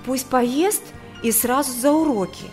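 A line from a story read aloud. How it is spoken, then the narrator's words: Anxious. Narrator (Russian): взволнованно произнесла невестка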